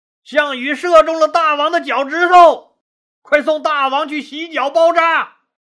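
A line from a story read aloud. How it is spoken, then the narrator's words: Loud announcement. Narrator (Chinese): 张良大声宣布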